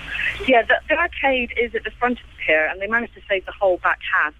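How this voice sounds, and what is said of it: Bristolian West Country English accent. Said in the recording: “That doesn't sound like an Eastbourne accent to me. ... It's Bristolian. I'm from the West Country.”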